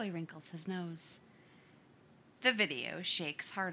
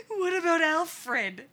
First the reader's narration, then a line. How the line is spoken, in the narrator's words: the voice wheezes